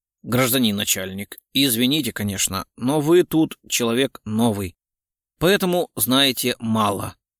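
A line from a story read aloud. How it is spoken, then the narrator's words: Calm reply. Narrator (Russian): спокойно ответил автомеханик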